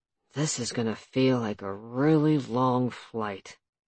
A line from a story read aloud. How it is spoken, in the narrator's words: he grumbled